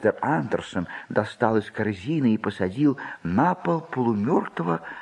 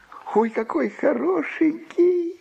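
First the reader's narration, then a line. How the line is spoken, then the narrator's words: Delighted squeal. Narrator (Russian): восторженно завизжала Джуди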